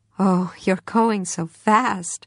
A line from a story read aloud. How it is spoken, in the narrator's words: said, laughing and admiring and consoling